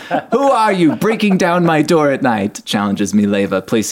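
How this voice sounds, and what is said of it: Usual voice. Nothing is said of it.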